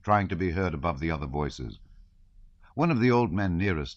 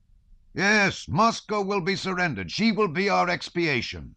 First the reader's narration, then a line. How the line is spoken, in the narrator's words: shouted one man